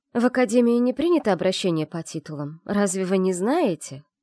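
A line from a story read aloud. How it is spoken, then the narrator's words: Sarcastic remark. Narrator (Russian): язвительно обронила Вивьин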